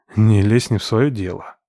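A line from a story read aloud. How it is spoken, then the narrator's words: Grumbled. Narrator (Russian): буркнул я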